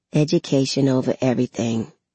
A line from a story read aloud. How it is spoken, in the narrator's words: I mumble